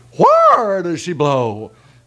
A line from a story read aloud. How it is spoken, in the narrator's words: he hollered